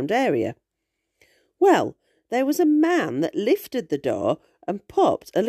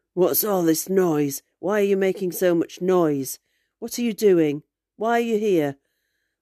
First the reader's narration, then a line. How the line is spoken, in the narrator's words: said in a rough voice